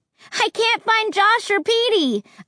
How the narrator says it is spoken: I yelled up to them from the street

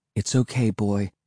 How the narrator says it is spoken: said quietly

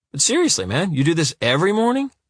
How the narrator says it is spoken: Jimmy asks cheerfully

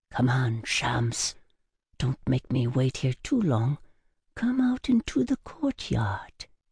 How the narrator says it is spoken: whispered

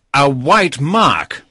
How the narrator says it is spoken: he cried

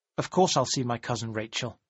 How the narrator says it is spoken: said in a hard, cold voice

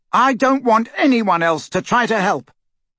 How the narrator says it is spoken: Harry said loudly, and in the total silence his voice carried like a trumpet call

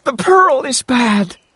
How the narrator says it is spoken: cried

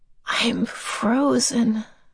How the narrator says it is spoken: she said faintly

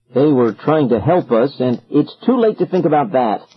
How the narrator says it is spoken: I said sharply

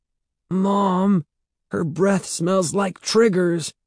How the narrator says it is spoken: Evan exclaimed miserably

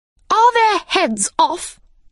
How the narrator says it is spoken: shouted the queen

